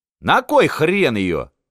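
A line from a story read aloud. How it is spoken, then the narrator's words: Shouted. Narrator (Russian): крикнул Пасынков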